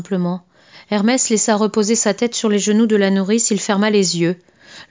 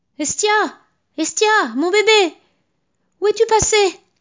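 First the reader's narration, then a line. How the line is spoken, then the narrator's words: Shouting. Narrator (French): criait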